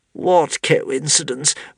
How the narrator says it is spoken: moaned Caliburn, feeling the beginnings of a serious worry coming on

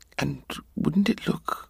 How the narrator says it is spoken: his mother concluded very quietly

